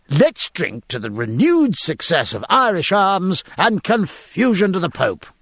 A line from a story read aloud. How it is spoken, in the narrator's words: cried Jack, with a sudden inspiration